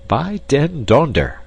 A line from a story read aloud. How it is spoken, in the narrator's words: exclaimed Peter von Holp to Karl Schummel